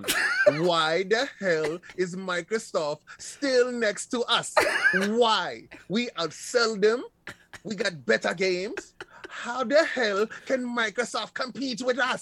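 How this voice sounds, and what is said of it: Put-on comedic accent. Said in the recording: “I can't with the accent.”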